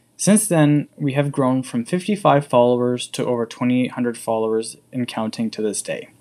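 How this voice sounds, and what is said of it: English accent. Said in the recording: “why do I have an English accent?”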